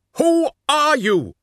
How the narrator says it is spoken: he shouted, striving to keep his voice steady

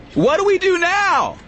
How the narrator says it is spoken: Yeegan shouted

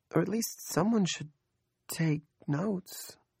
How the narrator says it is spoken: Andrea asked timidly

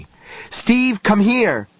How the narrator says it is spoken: Johnny shouted

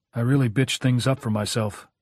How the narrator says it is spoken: he said evenly

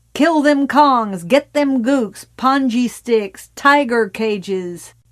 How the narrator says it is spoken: Tommy laughing

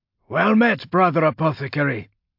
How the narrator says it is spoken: Sergeant Domitian called out as he approached

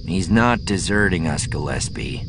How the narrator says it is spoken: Aves growled

